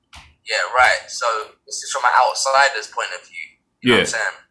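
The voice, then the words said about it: British accent. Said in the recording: “I'm not from the U.S. You can probably tell by the accent ... I can see you from the U.K.”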